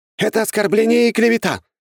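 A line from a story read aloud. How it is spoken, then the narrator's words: Shouted out. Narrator (Russian): выкрикнул кто-то из придворных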